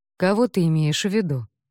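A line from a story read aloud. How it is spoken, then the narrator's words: Plain. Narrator (Russian): спросил он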